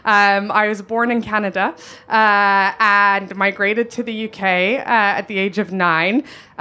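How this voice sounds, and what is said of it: Noticeable non-local accent. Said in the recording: “I'm sure you can hear my accent... I haven't gotten rid of this accent.”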